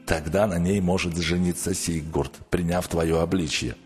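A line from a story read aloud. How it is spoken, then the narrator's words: Plain. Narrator (Russian): ответил Готтарм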